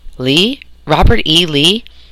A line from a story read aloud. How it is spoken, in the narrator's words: Charlie Quinn gasped in amazement